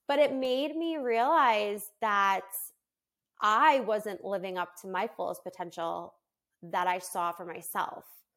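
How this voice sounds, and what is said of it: Teary, emotional voice. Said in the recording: “getting teary-eyed”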